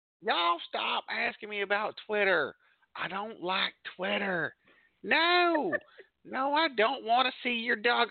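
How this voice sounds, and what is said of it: Perfect put-on Southern accent. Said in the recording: “such a perfect Southern accent”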